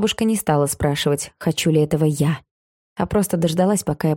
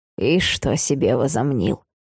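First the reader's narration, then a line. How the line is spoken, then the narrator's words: Grumble. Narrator (Russian): проворчала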